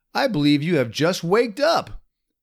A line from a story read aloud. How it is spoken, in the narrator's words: exclaimed Jimmy Skunk